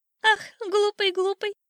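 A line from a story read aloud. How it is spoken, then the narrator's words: Old bird laughing mockingly. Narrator (Russian): засмеялся над ним старый воробей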